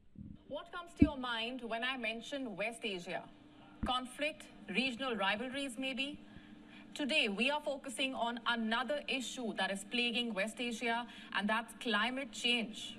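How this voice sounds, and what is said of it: Indian-accented English, female newsreader. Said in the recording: “I guess this is out of India ... her beautiful accent”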